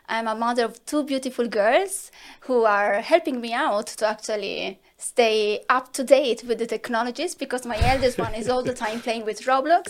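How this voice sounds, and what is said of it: Italian accent. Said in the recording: “I'm Italian, as you can assume from my accent.”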